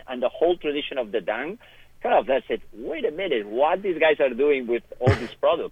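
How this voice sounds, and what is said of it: Non-American foreign accent. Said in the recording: “I'm not American, as you could tell by my accent”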